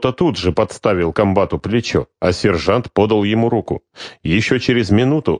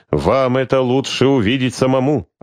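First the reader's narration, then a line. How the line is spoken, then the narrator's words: Plain. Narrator (Russian): ответил Терехов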